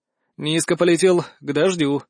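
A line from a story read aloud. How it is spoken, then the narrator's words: Sigh. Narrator (Russian): вздохнул я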